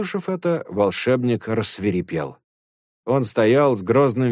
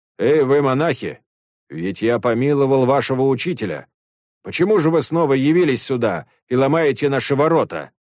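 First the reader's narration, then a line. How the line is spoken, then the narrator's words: Shouted. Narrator (Russian): крикнул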